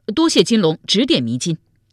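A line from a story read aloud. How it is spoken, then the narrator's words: Loud. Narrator (Chinese): 水猫子高声说道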